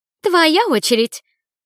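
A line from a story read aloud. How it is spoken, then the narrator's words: Indignant. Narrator (Russian): возмущенно сказала Лили Карине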